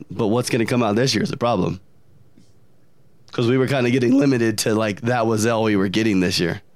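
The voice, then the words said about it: Squeaky, strained lost voice. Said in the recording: “my voice squeaks ... I lost my voice this week ... allergy destroyed”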